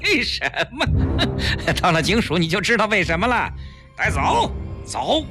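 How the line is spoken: Sinister laugh. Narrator (Chinese): 带头的警察阴险地笑了

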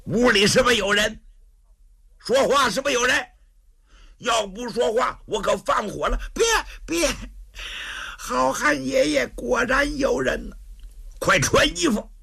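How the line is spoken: Shout. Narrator (Chinese): 武松喊了一声

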